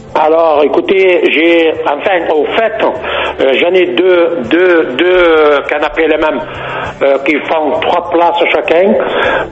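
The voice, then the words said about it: Slight regional French accent. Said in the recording (French): “Oh là là, des Pertuis dans le Vaucluse, 84. ... il y avait une pointe d'accent”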